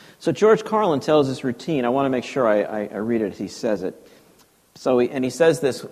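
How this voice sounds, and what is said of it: Usual voice. Nothing is said of it.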